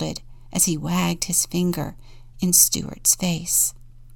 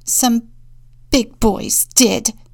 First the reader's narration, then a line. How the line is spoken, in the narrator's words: Stuart sputtered